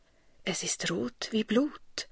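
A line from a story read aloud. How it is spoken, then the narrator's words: Murmured by new mother. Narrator (German): murmelt Maria, die eben geboren hat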